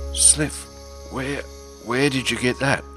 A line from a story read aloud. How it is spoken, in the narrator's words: Glyndrul stammered, his throat hoarse from screaming